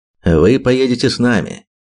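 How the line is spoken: Firm, categorical tone. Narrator (Russian): категоричным тоном сообщил колдун

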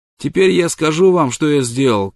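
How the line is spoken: Shouting downward. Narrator (Russian): крикнул он вниз

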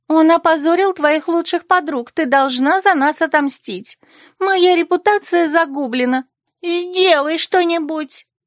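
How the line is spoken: Shrieked. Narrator (Russian): взвизгнула Этель

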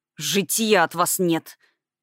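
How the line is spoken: Growl. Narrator (Russian): прорычал Барт

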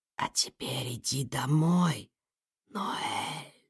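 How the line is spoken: Barely audible. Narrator (Russian): едва слышно произнес голос

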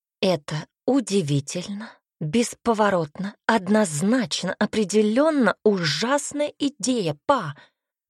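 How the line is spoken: Hissed through teeth. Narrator (Russian): Сквозь зубы прошипела девушка

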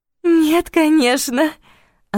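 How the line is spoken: Melodious laughter. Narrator (Russian): она рассмеялась мелодично

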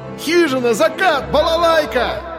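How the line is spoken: Shouting. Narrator (Russian): закричал Андрей

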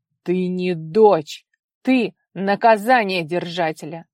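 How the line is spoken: Growling father. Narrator (Russian): зарычал отец

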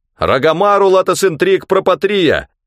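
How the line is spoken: Shouted. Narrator (Russian): выкрикнул Кэсвелл

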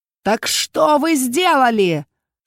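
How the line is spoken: Thundering question. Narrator (Russian): снова прогремел вопрос

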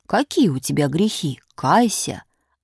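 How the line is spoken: Stern priest. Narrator (Russian): Батюшка спросит строго

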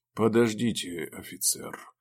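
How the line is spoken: Quiet voice. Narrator (Russian): негромко сказал один из них

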